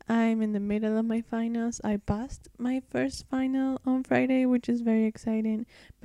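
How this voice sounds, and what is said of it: Tired-sounding voice. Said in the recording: “if I sound a bit tired”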